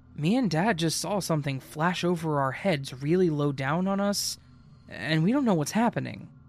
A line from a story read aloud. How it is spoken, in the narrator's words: She says in a concerned voice